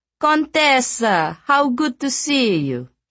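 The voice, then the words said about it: Extremely affected posh accent. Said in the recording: “he said in an extremely affected accent”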